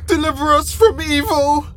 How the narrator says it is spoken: V screams as she's thrown out of her bed

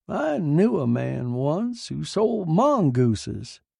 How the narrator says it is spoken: she said cheerfully

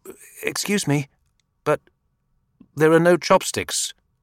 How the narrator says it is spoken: too embarrassed to say anything, he finally blurted out

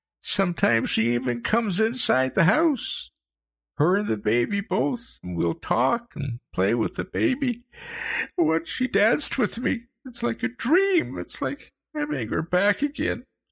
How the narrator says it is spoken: he sobbed

